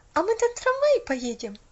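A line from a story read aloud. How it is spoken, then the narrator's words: Happy question. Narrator (Russian): радостно спросила Поллианна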